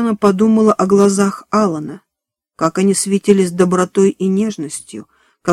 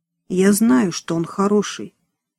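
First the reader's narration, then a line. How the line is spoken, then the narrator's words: Quiet. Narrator (Russian): тихо сказала Диана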